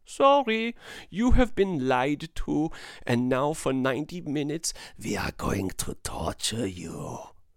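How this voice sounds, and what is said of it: Silly put-on German accent. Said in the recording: “it's a German film as well, and that's why I get to do that silly voice.”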